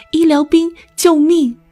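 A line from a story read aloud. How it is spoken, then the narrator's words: Shout amid gunfire. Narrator (Chinese): 话音刚落，他听见炮火声中有人高喊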